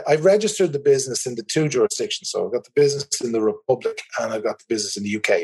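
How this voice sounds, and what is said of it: Irish accent. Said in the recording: “As you can probably tell from my accent, I'm in the Republic of Ireland”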